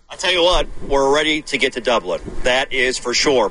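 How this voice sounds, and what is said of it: Florida panhandle Southern accent. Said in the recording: “so you get a sense of his accent ... Like everybody in the panhandle of Florida.”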